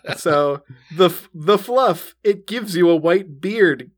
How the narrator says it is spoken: Gina giggles again

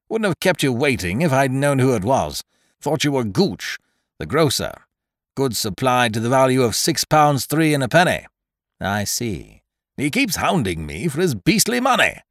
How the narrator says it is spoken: said Ukridge bitterly

